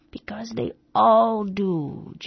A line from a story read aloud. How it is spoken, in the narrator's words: jeered the starling harshly